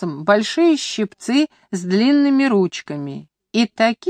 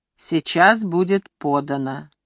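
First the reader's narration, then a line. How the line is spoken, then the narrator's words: Quiet low voices together. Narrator (Russian): Присутствующие негромко, низкими голосами ответили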